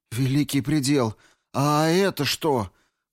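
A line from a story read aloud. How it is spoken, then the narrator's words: Moan, lying face down. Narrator (Russian): простонала лежащая ничком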